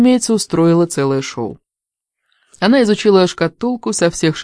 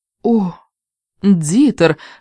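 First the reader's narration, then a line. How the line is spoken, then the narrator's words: Breathless exhale. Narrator (Russian): выдохнула она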